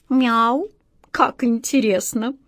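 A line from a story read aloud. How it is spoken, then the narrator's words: Slow reading aloud. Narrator (Russian): Кот Васька медленно прочел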